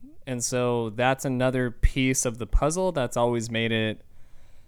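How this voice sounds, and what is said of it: Usual voice. Nothing is said of it.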